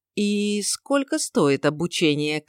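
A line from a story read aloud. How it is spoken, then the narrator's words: Uncertain question. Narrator (Russian): как-то неуверенно поинтересовался Рин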